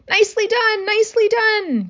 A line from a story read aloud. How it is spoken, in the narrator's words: cried the goose